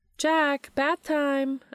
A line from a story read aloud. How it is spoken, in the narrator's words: Eileen yelled from the other room